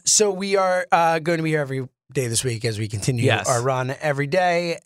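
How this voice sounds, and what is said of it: Strained, worn-out voice. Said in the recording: “my voice is hurting from yelling ... I'm feeling it right now. ... Yeah, you really are. ... I'm tired. I'm beat up.”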